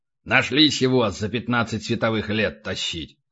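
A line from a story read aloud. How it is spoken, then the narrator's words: Gloomy. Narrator (Russian): мрачно сказал полубой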